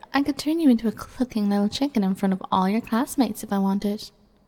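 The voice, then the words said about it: Speaks with an accent. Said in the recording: “Who could resist that accent, right?”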